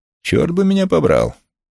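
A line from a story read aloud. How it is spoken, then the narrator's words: Woman's exclamation. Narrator (Russian): Его очаровательная жена воскликнула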